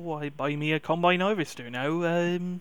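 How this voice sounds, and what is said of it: Put-on West Country accent. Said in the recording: “you want to go all West Country then? ... and then the accent falls apart”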